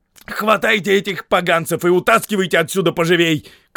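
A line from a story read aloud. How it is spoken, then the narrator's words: Shouted command. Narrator (Russian): крикнул он солдатам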